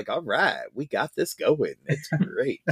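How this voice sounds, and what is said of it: Billy Dee Williams impression as Lando. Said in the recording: “that's my Billy another D one impersonation”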